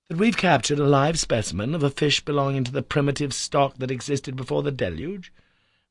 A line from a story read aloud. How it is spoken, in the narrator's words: I cried